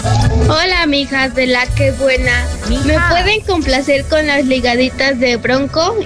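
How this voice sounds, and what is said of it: Childlike young girl's voice. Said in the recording (Spanish): “Me suena que es una mijita ... Tiene voz de niñita.”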